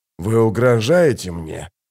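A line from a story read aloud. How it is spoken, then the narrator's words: Near growl. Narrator (Russian): почти прорычал он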